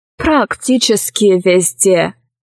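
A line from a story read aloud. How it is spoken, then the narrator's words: Plain. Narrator (Russian): сказал советник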